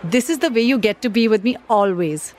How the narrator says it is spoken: she said happily

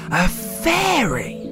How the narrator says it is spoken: exclaimed

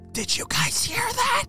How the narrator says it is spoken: said Johnny, whispering to one of the other friends

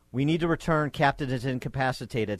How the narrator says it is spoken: said Ford's co-pilot

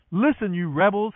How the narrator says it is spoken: he shouted

